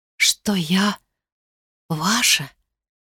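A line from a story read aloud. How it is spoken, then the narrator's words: Embarrassed whisper. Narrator (Russian): прошептала она в смущении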